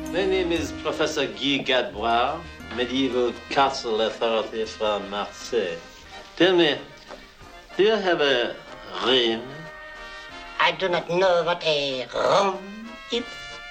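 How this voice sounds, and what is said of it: Exaggerated French accent, Peter Sellers. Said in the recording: “Peter Sellers and his exaggerated French accent in the classic comedy The Pink Panther”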